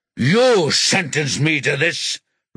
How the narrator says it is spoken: Rocky shouts

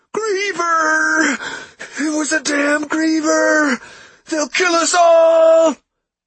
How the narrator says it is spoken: He shouted in a strained voice

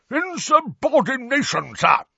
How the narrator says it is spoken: roared a corpulent, red-nosed wizard

